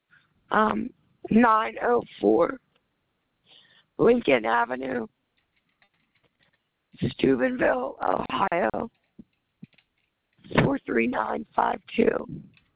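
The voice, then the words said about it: Hoarse, weak voice. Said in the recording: “I'm sorry, I lost my voice.”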